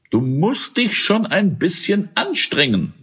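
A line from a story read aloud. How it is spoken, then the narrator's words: Plain. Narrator (German): sagte er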